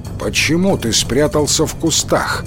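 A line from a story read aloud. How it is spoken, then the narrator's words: Stern question. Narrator (Russian): строго спросил Кензо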